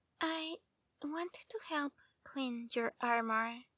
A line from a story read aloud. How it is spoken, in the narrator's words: said softly